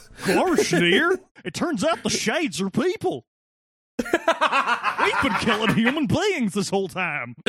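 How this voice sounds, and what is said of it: Goofy impression. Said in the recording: “that's such a good Goofy impression.”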